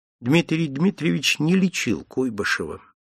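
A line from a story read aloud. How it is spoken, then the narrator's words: Calm. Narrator (Russian): Андрей Андреевич спокойно сказал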